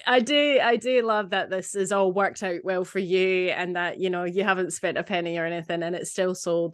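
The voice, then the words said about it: Scottish accent. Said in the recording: “I was born here but grew up there, hence the accent.”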